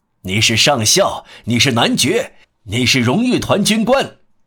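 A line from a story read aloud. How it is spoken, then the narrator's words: Glad shout. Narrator (Chinese): 皇帝很高兴，对他喊道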